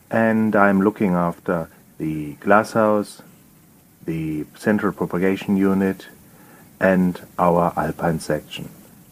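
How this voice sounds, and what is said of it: German accent in English. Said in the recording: “You will pick up from my accent that I'm not native British, I'm German.”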